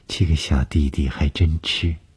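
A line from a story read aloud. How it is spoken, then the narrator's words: Flat calm. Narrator (Chinese): 董峰淡淡地说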